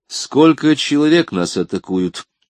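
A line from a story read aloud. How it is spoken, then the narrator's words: Plain. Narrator (Russian): спросил Езон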